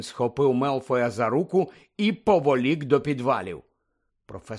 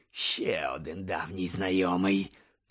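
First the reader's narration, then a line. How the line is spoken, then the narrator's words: Growled. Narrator (Ukrainian): прогарчав Муді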